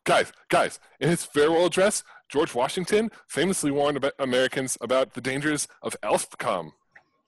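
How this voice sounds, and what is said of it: Excited delivery. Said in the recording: “your accent is excited.”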